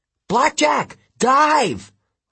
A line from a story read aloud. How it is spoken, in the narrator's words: I yelled